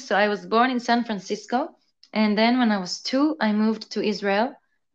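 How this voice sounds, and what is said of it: Mixed accent, mostly Israeli. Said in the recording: “my accent is a bit of a mix of everything, I guess. But mostly right now, Israeli”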